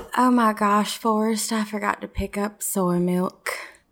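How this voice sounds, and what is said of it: Imitates a film character's accent. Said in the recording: “Best Jenny impressions... you have to say it in Jenny's accent... You were too good”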